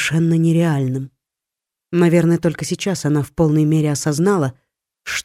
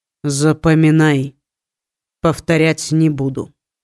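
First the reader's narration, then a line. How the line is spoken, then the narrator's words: Stern, cold tone. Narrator (Russian): начал он строгим холодным тоном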